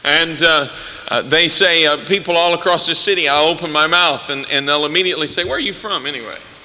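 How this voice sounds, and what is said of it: Accent heard as Southern US. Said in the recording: “my accent still gives me away because I don't think I have one, but everyone else must ... they always think I'm from the South. They think I'm from Georgia or Tennessee or somewhere.”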